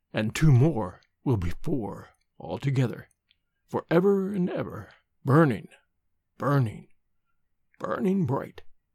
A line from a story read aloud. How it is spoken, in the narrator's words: he said, his voice lowering strangely